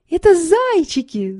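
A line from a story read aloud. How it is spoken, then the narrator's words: Delighted, impatient shout. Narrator (Russian): закричала Соня, не вытерпев, и от восторга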